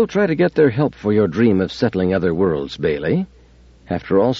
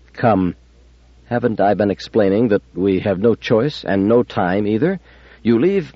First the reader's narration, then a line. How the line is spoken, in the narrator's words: Demichek said calmly